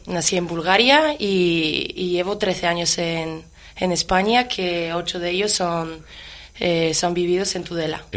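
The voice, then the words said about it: Bulgarian accent in Spanish. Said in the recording (Spanish): “Con ese acento con el cual me has dicho buenos días, tú, de aquí cerca no eres ... Yo soy búlgara.”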